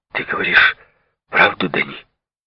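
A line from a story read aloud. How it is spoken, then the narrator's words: Close whispered question. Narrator (Russian): Дыша мне прямо в лицо, он спросил шепотом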